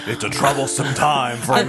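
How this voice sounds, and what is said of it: Put-on deep voice. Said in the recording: “I'm going to use my deep voice.”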